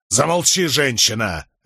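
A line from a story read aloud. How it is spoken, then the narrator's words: Barking husband. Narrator (Russian): рявкнул на нее супруг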